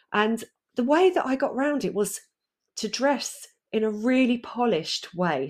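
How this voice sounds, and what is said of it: Essex accent. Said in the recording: “as you can probably hear, I've got an Essex accent ... the Essex lilt girl, the girl with the Essex accent”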